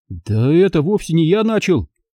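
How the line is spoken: Exclaiming. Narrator (Russian): воскликнул я

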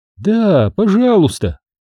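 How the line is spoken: Joyful, smiling. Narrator (Russian): радостно заулыбалась Скарли

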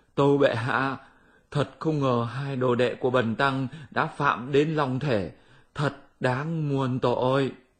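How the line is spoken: Panicked trembling address. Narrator (Vietnamese): đường tăng cũng hoảng cuống cả lên, run run tâu

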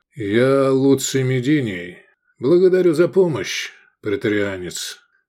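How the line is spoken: Calm. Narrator (Russian): спокойно сказал

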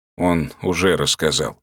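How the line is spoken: Colonel's calm reply. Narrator (Russian): спокойно ответил полковник

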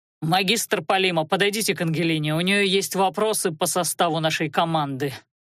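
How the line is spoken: Growling. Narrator (Russian): рыкнул Анхайлик

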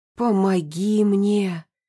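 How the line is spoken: Witch's hoarse rasp. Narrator (Russian): прохрипела ведьма

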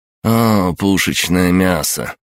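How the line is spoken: Mocking drawl. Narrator (Russian): с насмешкой протянул светловолосый гаденыш

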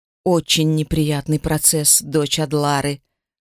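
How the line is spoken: Hissing. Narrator (Russian): шипели пролетающие вокруг полосы

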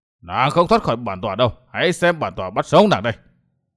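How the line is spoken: Furious roar. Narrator (Vietnamese): Chộp mãi không bắt được Tiểu Tây Thi, Huyết Ma Bảo Chủ nổi giận gầm lên

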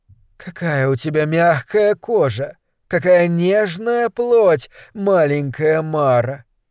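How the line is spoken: Lazy purring. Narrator (Russian): лениво мурлыкала

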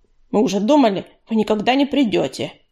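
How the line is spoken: Grumbling. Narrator (Russian): проворчал Чернозвезд

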